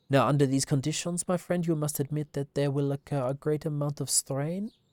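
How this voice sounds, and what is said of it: Hercule Poirot Belgian accent impression. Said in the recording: “my Hercule Poirot voice, the Belgian accent”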